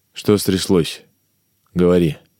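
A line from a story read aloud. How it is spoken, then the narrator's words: Calm question. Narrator (Russian): спокойно спросил Иван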